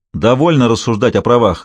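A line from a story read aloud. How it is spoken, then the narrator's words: Barking shout. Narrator (Russian): гаркнул я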